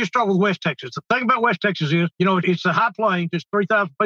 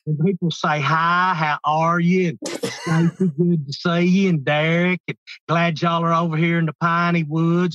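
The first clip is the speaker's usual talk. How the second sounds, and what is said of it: East Texas drawl, stretched diphthongs. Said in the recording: “if you go all the way over to East Texas ... closer to the south. And over there, all the diphthongs start get pulling out a lot farther”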